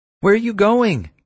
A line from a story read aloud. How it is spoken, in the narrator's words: Kira screamed at me